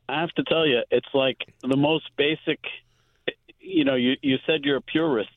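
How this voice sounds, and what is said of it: Brooklyn accent. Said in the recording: “I love Brooklyn. That's where I was born. ... I could tell. We have the same accent.”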